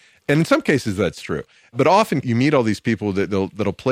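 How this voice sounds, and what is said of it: Usual voice. Nothing is said of it.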